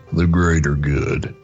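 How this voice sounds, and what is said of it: Deep cowboy impression voice. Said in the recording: “It was kind of Sam Elliott, but it was my best cowboy impression... It's very, very sexy.”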